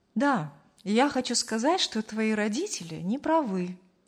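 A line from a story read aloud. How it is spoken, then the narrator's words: Calm. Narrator (Russian): спокойно закончил фразу Аркадий Петрович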